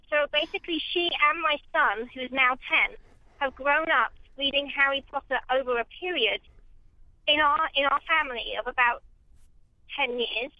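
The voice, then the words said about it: British accent. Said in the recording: “I can hear by your accent that you're British”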